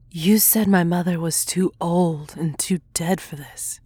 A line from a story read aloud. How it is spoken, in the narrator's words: she said wearily, the thing in her womb sapping her energy